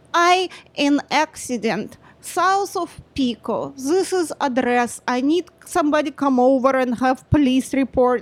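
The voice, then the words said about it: Thick Russian accent, broken English. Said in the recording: “with a thick Russian accent. So it wasn't really fluent.”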